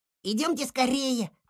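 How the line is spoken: Child's squeak. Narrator (Russian): пропищал малыш

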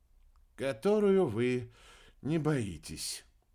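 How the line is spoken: Sigh. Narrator (Russian): вздохнул Рики

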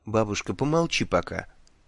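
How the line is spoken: Quiet young girl's voice. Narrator (Russian): тихо сказала ей юная ведьмочка

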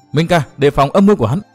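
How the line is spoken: Shout. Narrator (Vietnamese): Phương Tử Ngọc la lên

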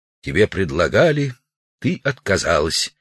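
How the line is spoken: Quiet. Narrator (Russian): Удалов негромко сказал

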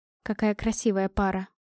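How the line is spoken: Quiet. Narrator (Russian): произнесла я тихо

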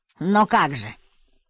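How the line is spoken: Angry. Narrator (Russian): зло сказал Стрит

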